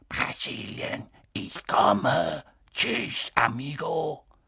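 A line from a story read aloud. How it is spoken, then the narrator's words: Soft hissing voice. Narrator (German): eine leise, zischende Stimme sagte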